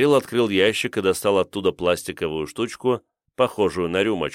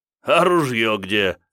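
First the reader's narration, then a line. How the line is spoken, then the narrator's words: Laughing. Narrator (Russian): засмеялся Козубов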